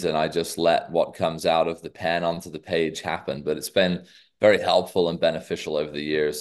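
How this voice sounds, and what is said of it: Americanized British accent. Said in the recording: “you have a little different accent than ... than the others ... my very Americanized British accent now. So it's kind of halfway in the Atlantic Ocean.”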